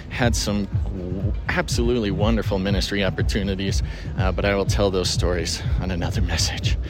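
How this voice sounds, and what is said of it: Out of breath speaker. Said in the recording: “I'm out of breath. I'm walking in the mud.”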